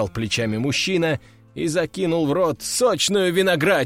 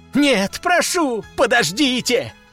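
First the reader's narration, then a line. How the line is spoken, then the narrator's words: Wailing plea. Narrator (Russian): взвыли бедолаги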